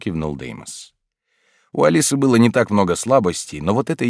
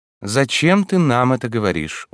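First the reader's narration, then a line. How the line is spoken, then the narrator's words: Gloomy, through teeth. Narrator (Russian): уныло процедил Люций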